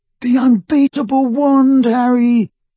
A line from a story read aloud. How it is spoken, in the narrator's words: moaned Ron